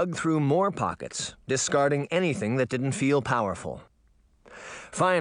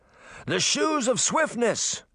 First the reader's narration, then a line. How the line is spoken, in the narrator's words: Uncle Jake shouted